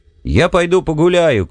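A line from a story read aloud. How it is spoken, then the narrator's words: Shouted through a door. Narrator (Russian): крикнул в дверь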